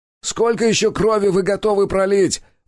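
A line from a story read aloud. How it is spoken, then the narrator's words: Shouted. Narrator (Russian): выкрикнул я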